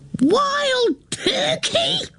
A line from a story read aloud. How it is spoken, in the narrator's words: She screams